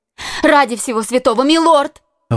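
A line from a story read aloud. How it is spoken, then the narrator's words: Exclaimed. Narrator (Russian): воскликнула госпожа Бонасье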